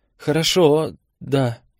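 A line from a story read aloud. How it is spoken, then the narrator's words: Forced out after swallowing. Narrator (Russian): выдавил он, сглотнув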